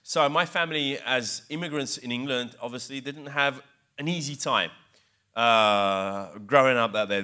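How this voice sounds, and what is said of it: English accent. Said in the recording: “hence my English accent ... how come this Italian guy has this English accent?”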